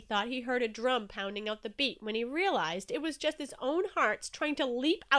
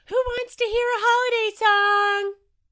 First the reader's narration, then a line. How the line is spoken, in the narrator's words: Jellyfish yelled